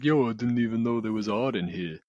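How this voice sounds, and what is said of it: Rocky Balboa movie character impression. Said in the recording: “my Rocky impression. It's going to be the worst one you hear tonight, I think. ... It wasn't that bad. It was okay.”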